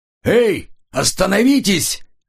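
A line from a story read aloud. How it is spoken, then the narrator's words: Pursuer's shout. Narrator (Russian): закричал один из преследователей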